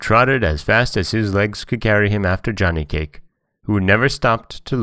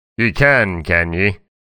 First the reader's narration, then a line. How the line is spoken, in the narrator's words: growled the bear